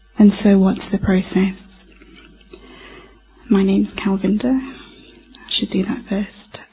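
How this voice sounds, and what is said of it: British accent. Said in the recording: “obviously from the accent you can tell I'm from the UK, or maybe not”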